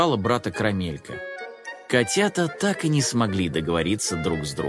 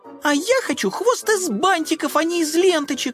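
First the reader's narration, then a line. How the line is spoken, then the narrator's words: Shout. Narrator (Russian): закричала Карамелька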